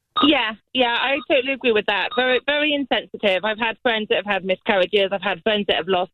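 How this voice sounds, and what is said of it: Bristol southwest English accent. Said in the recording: “we have another ... that calls with an accent like that ... Who has an accent. ... Originally, Bristol, southwest Miss England.”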